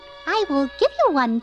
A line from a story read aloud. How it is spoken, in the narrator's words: chirped Mrs